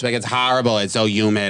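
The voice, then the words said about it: Mixed Brooklyn–Rhode Island accent impression. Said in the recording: “her accent is like half Brooklyn, half Rhode Island, which means it's like indecipherable”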